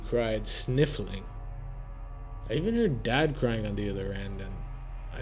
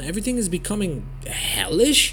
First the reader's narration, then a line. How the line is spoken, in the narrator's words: I said, stuttering